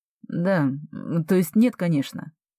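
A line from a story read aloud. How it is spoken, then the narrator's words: Mumbling. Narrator (Russian): пробормотал Алекс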